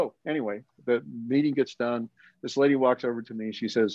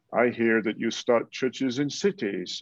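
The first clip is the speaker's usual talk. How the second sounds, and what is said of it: Imitated British accent. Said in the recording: “And she's British. And that's why I'm mimicking a British accent.”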